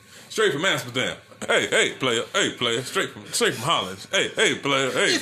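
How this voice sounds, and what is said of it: Imitates another person's voice. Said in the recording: “doing his best Teddy Long impersonation”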